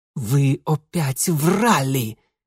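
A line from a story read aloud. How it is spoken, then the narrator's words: Hateful, through gritted teeth. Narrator (Russian): ненавидяще процедил Ингвар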